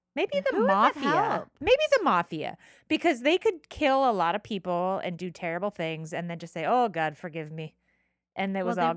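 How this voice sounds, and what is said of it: Slight Irish accent. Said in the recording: “You did a little bit of an Irish accent ... I'm Irish”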